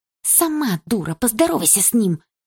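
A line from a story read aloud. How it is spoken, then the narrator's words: Hissed reply. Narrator (Russian): прошипела в ответ Дилара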